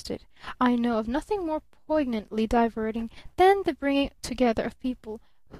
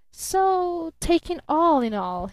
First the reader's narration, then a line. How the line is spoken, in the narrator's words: he drawled, still beamingly